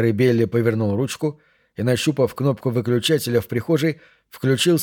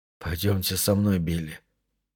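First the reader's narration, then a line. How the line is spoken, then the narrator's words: Quiet, even voice. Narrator (Russian): тихим ровным голосом сказал Джим Лоури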